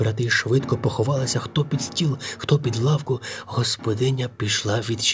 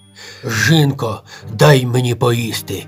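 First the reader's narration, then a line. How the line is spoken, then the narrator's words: Ogre's gruff bark. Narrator (Ukrainian): з порога гаркнув людожер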